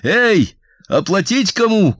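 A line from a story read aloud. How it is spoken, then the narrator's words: Shouted. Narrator (Russian): крикнул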